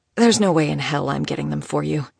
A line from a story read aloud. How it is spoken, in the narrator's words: she grumbled